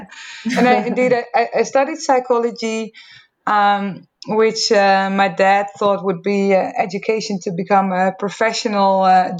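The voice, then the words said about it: Dutch accent. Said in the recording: “I grew up in the Netherlands, as you can probably hear from my accent ... people can always hear that I'm from the Netherlands.”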